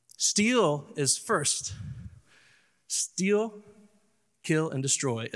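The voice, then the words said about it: Southern accent. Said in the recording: “Is my Southern accent coming out with that?”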